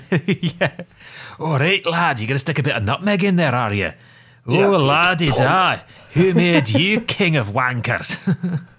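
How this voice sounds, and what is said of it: Put-on Scottish accent. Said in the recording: “in a Scottish accent”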